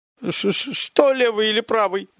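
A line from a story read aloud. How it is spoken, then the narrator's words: Terrified babbling. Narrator (Russian): В ужасе пролепетал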